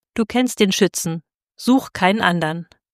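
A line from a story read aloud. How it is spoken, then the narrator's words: Called out. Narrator (German): der Schütze Tell rief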